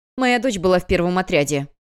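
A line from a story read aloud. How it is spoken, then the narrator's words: Woman barking. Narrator (Russian): рявкнула женщина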